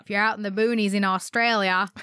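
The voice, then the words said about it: Put-on Australian accent. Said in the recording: “Is that bad?... I think I can get into an Australian accent if I do it long enough.”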